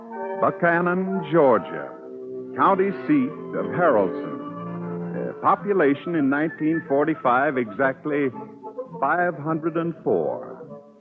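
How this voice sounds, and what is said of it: Southern American accent. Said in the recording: “Pardon my southern accent.”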